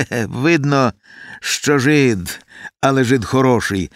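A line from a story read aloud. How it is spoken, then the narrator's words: Laughing. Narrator (Ukrainian): засміявся отаман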